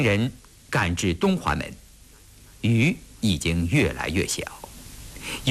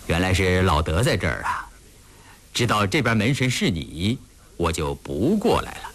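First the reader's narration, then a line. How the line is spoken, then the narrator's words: Laughing. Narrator (Chinese): 德楞泰笑着说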